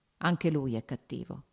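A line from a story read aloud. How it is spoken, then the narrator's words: Plain. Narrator (Italian): disse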